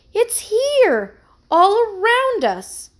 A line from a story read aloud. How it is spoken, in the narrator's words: she exclaimed happily